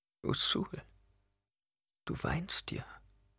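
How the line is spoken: Murmured. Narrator (German): murmelte Chani

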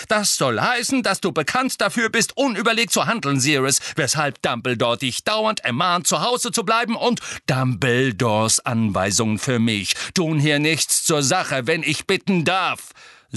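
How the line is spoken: Loud. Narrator (German): sagte Cyrus laut

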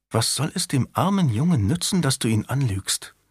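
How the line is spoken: Whisper in ear. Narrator (German): Marguerite flüsterte ihm ins Ohr

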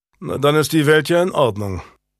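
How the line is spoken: Dry remark. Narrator (German): bemerkte Julian trocken

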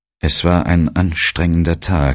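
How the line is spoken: Trembling voice. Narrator (German): sagte mit bebender Stimme

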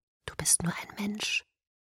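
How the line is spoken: Whispered. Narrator (German): flüsterte er

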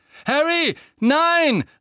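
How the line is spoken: Calling out. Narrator (German): rief Lupin

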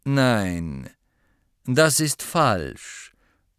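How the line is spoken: Bored voice. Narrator (German): sagte Snape mit gelangweilter Stimme

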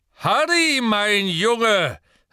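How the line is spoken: Booming voice calling. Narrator (German): rief eine dröhnende Stimme

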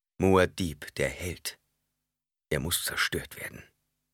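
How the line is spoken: Plain. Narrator (German): sagte Leto

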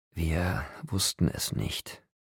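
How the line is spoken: Faint as a breath. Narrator (German): sagte er, und seine Worte waren leise wie ein Atemhauch

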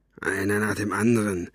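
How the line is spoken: Grunting. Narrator (German): grunzte er den alten Mann an

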